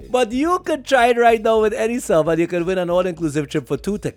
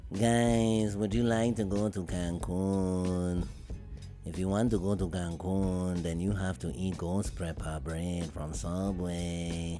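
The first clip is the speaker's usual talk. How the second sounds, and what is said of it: Put-on Mexican accent. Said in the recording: “my impression of a Mexican”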